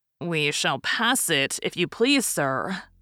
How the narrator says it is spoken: said Conseil

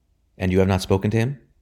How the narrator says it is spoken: she asked quickly

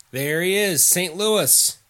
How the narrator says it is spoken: Parnell called out

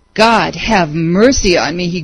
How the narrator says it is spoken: he groaned

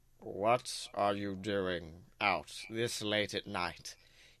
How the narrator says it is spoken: He grumbles

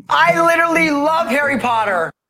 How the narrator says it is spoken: screamed

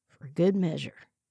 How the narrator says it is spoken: mumbled to himself

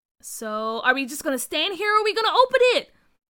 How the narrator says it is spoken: Carr asked eagerly

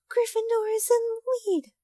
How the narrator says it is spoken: shrieked Hermione, dancing up and down in her seat

